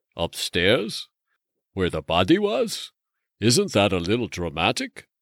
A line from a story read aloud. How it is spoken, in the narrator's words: Brendan chuckled